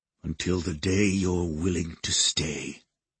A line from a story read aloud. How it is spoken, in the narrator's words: I thought I heard him murmur